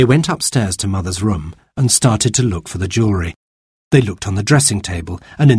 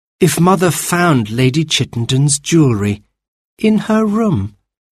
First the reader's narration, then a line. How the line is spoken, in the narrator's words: Jane said dreamily